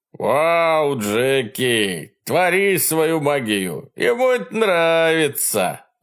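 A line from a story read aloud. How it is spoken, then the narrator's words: Exclaiming. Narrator (Russian): выкрикнул Элэй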